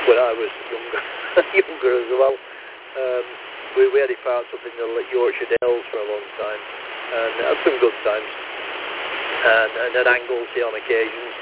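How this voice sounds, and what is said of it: Lancashire English accent. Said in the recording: “You might notice from my accent, I'm more Lancashire than Scouse”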